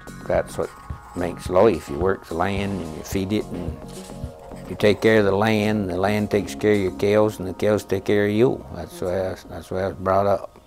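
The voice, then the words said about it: Old-fashioned New England accent. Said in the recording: “a New England accent that time forgot.”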